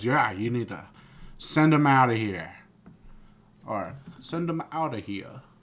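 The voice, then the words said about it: Bad attempt at British accent. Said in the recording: “That was British accent. Bad. ... That wasn't even a British accent. ... That was just like in a different American accent. ... was not good. It was not good.”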